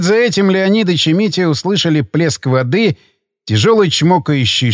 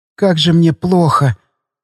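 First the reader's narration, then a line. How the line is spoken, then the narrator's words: Tired girl's whisper. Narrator (Russian): устало прошептала девочка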